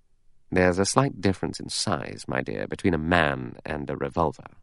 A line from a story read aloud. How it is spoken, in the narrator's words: Lombard murmured